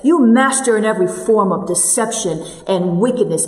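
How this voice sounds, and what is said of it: Stern, rebuking voice. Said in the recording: “I imagine he said it in a very stern voice. ... I said it some way like this”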